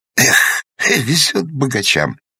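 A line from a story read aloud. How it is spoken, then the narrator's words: Sighing. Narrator (Russian): вздохнул Сургозин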